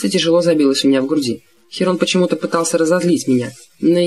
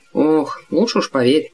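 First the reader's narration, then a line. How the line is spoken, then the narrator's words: Mutter. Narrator (Russian): пробормотал мистер Д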